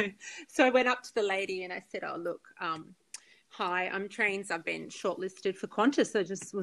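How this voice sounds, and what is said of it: Usual voice. Nothing is said of it.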